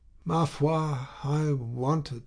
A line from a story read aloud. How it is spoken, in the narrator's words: said Madame Homais, yawning at large